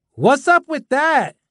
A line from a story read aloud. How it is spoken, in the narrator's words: Another kid yelled